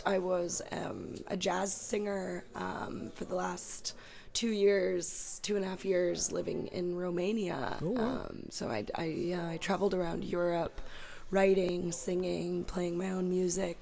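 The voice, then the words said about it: Hoarse, raspy voice. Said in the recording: “lost my voice ... I already naturally have like a raspy voice”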